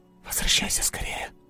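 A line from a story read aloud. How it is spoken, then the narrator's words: Whisper. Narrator (Russian): прошептала она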